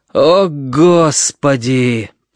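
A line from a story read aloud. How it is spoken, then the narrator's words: Groaned. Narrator (Russian): простонал он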